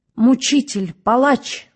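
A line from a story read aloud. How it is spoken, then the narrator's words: Very loud scream. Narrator (Russian): закричала она так громко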